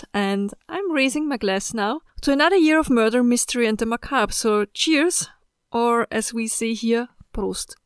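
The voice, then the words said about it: Speaks English with an accent. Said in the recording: “Thank you for enjoying my accent.”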